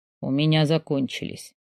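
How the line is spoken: Suspiciously hoarse voice. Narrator (Russian): выдает подозрительно хриплым голосом

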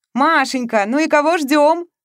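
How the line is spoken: Snorting shout. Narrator (Russian): фыркая, крикнул ей Игорь

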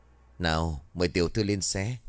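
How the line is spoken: Smiling. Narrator (Vietnamese): Đức Luân mỉm cười nói

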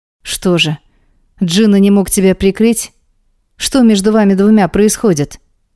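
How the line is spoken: Stern fatherly question. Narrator (Russian): Строго спрашивает отец

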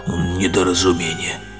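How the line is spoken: Muttered. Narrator (Russian): Адъютант пробормотал

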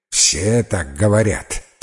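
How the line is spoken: Grumbling mutter. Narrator (Russian): пробурчал мистер Оррок

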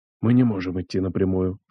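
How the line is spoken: Senior master whispering. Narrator (Russian): шептал один из старших мастеров

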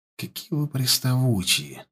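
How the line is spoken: Quiet, private. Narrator (Russian): сказал он тихо, чтобы услышал только ворк

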